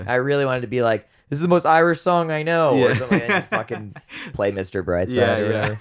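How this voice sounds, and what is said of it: Husky, low singing-worn voice. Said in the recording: “I've got sexy voice now that I was singing all night ... Sexy voice. That's my falsetto now”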